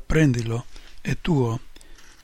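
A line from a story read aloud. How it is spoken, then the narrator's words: Whisper. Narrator (Italian): mi sussurra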